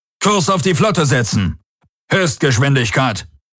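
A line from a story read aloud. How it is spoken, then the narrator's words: Calling out. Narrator (German): rief der Feldherr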